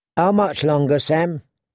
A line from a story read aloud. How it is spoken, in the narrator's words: Gilly asked